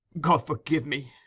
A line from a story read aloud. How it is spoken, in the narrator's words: she cried after a while